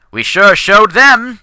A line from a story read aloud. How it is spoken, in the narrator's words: exclaimed